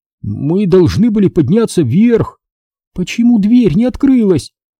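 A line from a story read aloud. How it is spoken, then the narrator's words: Trembling voice. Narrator (Russian): Дрожащим голосом спросила Либи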